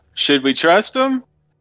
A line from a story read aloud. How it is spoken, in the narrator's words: yell